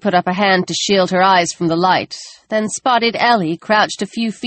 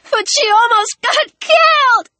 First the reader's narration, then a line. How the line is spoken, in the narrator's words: Ellie shrieked